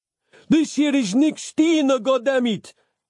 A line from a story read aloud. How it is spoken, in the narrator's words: yelled Capello